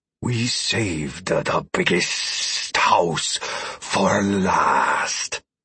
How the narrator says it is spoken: the lizard man breathed

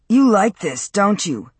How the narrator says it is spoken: Matt spat

